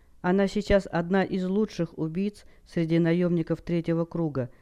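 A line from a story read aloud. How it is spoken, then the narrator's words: Calm. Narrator (Russian): спокойно произнес Сейсиен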